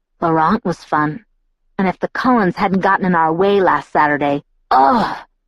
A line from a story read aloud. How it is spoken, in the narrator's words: he groaned